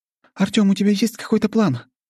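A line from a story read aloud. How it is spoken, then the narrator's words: Anxious question. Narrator (Russian): взволнованно спросила Аня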